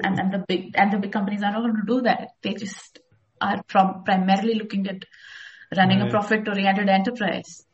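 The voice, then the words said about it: Indian English accent. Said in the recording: “I can hear you have an accent that I'm assuming is Indian”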